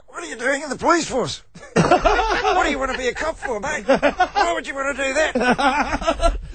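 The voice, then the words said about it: Strangled, choked impression voice. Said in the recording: “impersonate the other Tony Martin... Just by strangling myself.”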